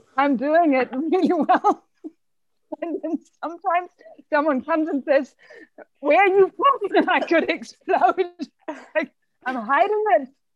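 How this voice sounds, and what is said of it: German accent. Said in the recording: “this German ... I'm trying to hide this accent ... How can you know I'm German?”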